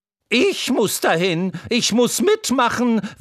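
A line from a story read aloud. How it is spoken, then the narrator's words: Excited neighing horse. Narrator (German): wieherte das Pferd Troubadour und stampfte aufgeregt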